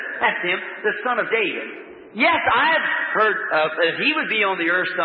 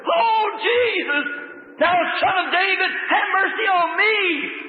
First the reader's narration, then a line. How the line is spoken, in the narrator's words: the old beggar scream to the top of his voice